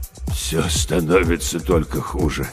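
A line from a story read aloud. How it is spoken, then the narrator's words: Old man, delirious mumble. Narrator (Russian): словно в бреду бормотал старик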